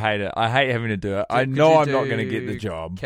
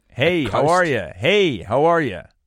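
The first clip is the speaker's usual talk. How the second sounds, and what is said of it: Attempted American accent, sounds Canadian. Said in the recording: “I got to do an American accent ... I'm hearing Canadian from that”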